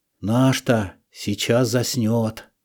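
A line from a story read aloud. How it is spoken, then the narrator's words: Joyful whispering. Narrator (Russian): проходил радостный шепоток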